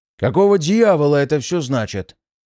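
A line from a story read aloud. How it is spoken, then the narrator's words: Rumbling trained lecturer voice. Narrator (Russian): пророкотал он хорошо поставленным лекторским голосом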